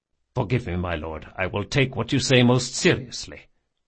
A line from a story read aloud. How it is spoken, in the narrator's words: muttered Locke